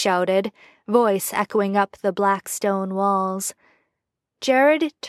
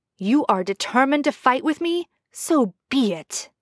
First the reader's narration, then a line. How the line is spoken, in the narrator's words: Jensen snarled